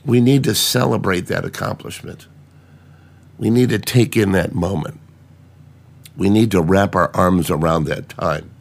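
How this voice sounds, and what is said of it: Rough, hacked-up sick voice. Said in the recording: “You can tell by my voice I'm pretty hacked up.”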